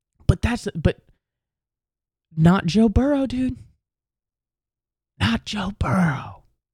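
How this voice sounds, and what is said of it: Mediocre Sebastian impression. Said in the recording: “That was a little Sebastian right there ... Everybody does a fucking Sebastian impression. But none is as mediocre as mine.”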